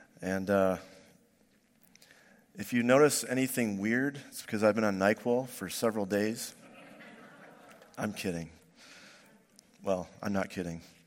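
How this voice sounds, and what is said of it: Voice lower than usual, sick. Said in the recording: “my voice is a little lower than usual. I've had a cold for about a week.”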